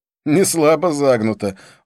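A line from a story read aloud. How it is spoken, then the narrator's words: Laughing. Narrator (Russian): он снова рассмеялся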